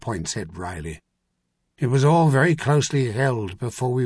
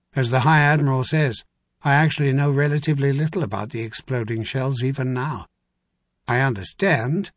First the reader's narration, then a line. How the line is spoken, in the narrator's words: his tone got even drier